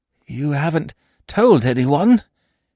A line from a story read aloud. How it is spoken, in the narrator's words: he croaked hoarsely